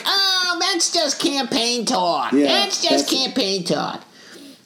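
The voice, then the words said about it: Imitates another person's voice. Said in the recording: “that's a good impersonation... It is a good impersonation of him”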